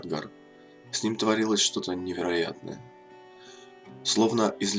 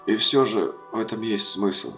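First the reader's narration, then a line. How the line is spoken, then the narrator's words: Hoarse. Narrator (Russian): хрипло произнес Кадгар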